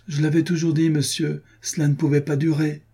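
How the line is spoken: Distressed young man's cry. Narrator (French): s'écria le pauvre garçon

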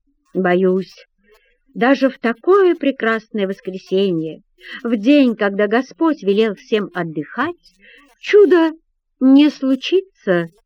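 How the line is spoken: Hypocritical sighing speech. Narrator (Russian): лицемерно вздыхая, произносит он

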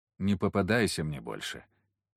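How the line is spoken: Quiet. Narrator (Russian): негромко сказал

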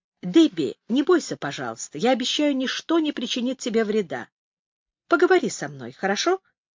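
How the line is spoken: Calm, kind. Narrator (Russian): Джастин Доннелли говорил спокойным, добрым голосом

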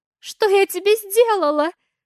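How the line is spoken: Tearful question. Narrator (Russian): Плачущим голосом спрашивает

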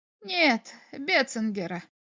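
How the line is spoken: Dry reply. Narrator (Russian): ответил Форчик сухо

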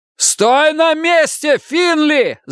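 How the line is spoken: Yelling, wolf. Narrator (Russian): заорал волк

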